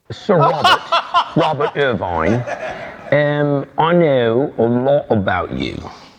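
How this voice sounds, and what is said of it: Bad put-on English accent. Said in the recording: “Bad English accent.”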